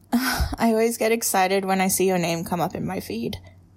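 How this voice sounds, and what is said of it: Sweet Australian-accented female voice. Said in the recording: “I adore your voice. It's very sweet. Turns out I have a thing for Australian accent and accents, and yours”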